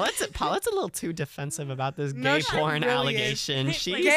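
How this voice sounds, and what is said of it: Usual voice. Nothing is said of it.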